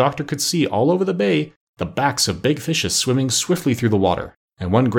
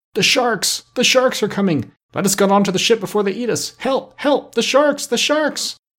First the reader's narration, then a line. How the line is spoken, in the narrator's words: they all cried out in great fear